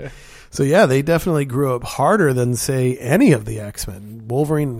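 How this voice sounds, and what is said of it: Usual voice. Nothing is said of it.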